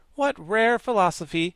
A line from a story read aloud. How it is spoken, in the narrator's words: exclaimed the Wogglebug admiringly